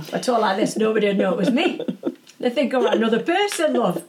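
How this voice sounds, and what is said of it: Strong put-on Yorkshire accent. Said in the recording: “a Yorkshire accent, you know, it's quite a strong ... it's quite strong for an American, that's the strong Yorkshire accent”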